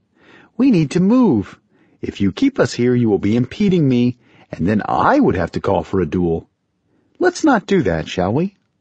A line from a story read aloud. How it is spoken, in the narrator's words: Ralia sang sweetly